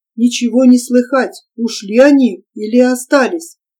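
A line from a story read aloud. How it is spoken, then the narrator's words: Whisper. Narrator (Russian): испуганно ... шепнул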